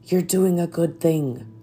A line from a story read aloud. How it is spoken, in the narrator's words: the funeral director, who whispered